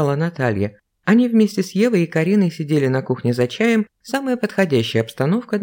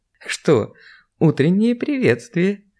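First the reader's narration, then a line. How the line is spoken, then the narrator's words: Giggling woman. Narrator (Russian): хихикнула женщина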